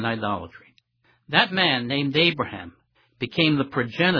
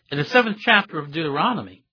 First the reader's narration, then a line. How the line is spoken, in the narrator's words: he exclaimed